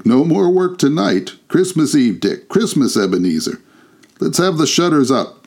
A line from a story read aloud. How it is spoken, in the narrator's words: cried old Fezziwig